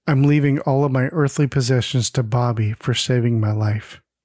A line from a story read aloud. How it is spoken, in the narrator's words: Peter solemnly says